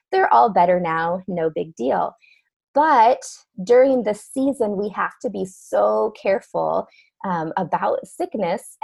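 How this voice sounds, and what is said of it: Voice slightly altered, sounds sick. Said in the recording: “my voice sounds a little different today. I've been struggling with a cold”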